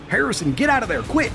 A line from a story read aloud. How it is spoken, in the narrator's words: Tommy ... he was yelling